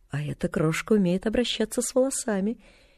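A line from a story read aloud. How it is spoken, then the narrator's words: Quiet. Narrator (Russian): тихо сказала она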